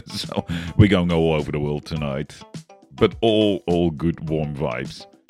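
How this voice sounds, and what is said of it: Australian Dutch accent. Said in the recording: “with a Australian Dutch accent. So, pardon my pronunciation.”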